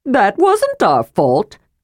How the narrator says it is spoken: cried Tasselhoff

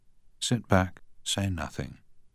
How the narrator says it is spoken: murmured Sir Matthew

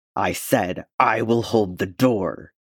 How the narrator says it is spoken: he snarled back

